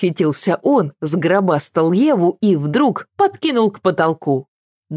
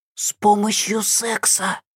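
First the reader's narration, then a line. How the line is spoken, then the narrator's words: Loud whisper. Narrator (Russian): подсказал Дим-Дим громким шепотом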